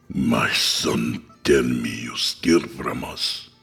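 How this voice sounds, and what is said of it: Raspy hissed Middle Eastern accent. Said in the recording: “he hissed with a raspy Middle Eastern accent.”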